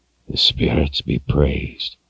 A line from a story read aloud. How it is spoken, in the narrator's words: he whispered